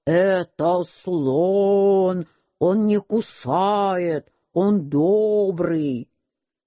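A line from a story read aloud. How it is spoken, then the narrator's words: Deep thick voice. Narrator (Russian): сказал толстым голосом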